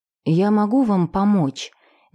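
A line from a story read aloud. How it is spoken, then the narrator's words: Timid, unsure voice. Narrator (Russian): Неуверенно и робко проговорила она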